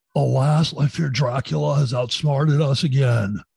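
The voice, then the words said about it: Imitates another person's voice. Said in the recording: “have I ever done my Keanu in Dracula impression for you?”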